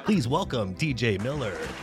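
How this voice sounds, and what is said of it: Polished radio announcer voice. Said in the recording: “You got a great radio voice.”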